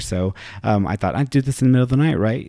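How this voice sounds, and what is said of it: Slightly hoarse voice. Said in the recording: “my throat is a little bit hoarse just because it's like, what, it's 2 o'clock in the morning here”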